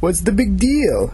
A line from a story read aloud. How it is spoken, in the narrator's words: asked in a Jamaican accent